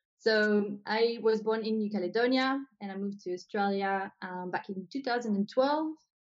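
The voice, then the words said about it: New Caledonian accent. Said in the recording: “people probably can hear my accent and they're like, where is she from? ... I'm originally from New Caledonia”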